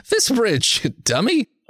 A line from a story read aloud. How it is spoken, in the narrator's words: Art laughs